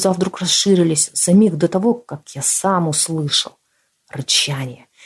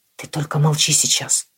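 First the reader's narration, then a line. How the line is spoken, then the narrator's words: Whispered. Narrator (Russian): шепнул я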